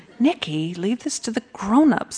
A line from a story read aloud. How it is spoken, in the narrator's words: I whispered